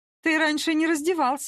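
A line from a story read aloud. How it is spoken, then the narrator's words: Giggle. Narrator (Russian): хихикнула я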